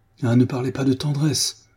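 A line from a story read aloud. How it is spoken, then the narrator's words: Crying out. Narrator (French): s'écria-t-il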